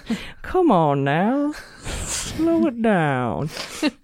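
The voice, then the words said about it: Slow turtle character voice. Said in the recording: “an impression ... a turtle named Gonk who talks like that”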